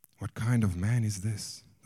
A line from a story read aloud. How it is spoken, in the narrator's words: they asked themselves anxiously